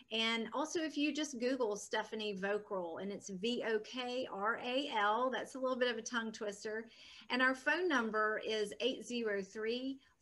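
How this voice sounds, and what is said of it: Southern American accent. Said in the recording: “this Southern accent all the time”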